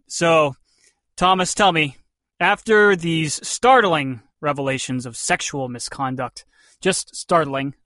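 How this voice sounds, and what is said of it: Sarcastic delivery. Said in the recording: “hear the sarcasm in my voice.”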